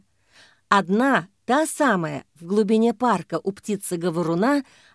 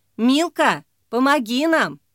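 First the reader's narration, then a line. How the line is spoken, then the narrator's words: Shouted. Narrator (Russian): крикнула Ксения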